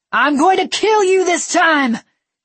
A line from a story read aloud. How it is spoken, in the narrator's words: he screamed at her